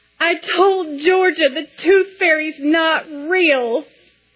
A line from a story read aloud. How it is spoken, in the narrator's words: Ben, now a complete sobbing mess, says